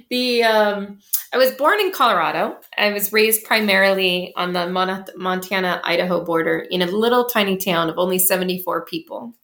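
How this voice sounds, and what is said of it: Thick American accent. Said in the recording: “I have a super thick American accent.”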